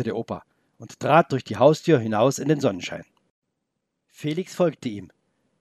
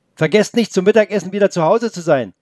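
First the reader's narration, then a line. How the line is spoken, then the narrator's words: Called after, grandmother. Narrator (German): rief die Oma den beiden nach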